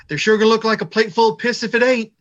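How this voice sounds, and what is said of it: Impression of Jim Cornette. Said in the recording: “that was a pretty good impression ... To quote the James E. Cornette”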